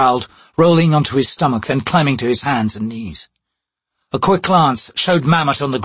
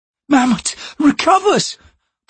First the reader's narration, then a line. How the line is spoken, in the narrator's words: the woman said desperately